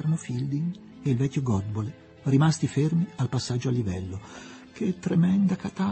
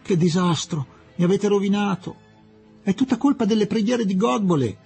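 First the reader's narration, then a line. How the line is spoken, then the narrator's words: Shout. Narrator (Italian): gridò Fielding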